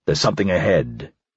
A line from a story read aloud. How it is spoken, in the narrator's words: he said, lowering his voice